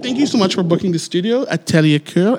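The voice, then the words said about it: Put-on French accent. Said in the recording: “any excuse for me to have a French accent.”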